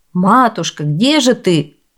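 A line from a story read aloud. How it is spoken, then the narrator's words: Joyful father shouting. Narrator (Russian): закричал мачехе обрадованный отец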